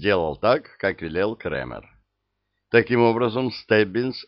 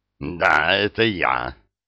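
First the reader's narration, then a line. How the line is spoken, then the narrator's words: Hoarse, throat-clearing confirmation. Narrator (Russian): хрипло подтвердил Иган, откашливаясь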